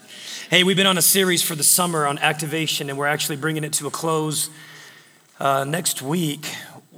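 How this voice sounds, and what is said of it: Strained, hoarse voice. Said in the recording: “Forgive my voice. It's a little, I don't know. ... some crazy guy was up here screaming earlier this morning.”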